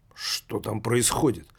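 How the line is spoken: Muttering, stout man. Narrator (Russian): Пробормотал Исудзу, коротконогий, лысеющий толстяк

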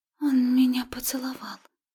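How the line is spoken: Breathless. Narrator (Russian): выдохнула рыженькая

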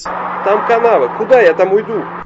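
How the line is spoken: Yelling. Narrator (Russian): Вопит кто-то в ответ

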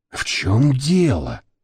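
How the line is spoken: Whispered in ear. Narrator (Russian): прошептала на ухо Вася Орлин

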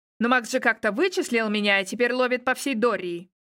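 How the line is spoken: Angry snapping retort. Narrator (Russian): Зло огрызнулся вампир

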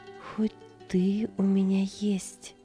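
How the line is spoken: Whispering. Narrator (Russian): шептала она

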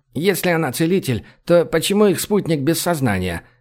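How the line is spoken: Scoffing snort. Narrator (Russian): фыркнул Дрорг

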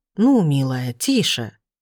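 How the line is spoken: Man's soft scolding. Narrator (Russian): тихо выговаривает мужчина

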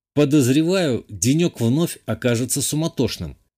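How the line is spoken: Plain. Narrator (Russian): ответил ей

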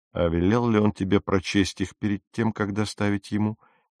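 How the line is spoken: Quiet question. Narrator (Russian): тихо спросил мистер Кристиан

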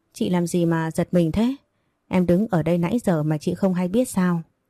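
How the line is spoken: Laughing voice. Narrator (Vietnamese): Hà liền bật cười nói

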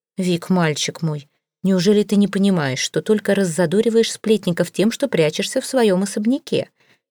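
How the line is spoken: Calm, serious. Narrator (Russian): ответила неожиданно спокойно и серьезно

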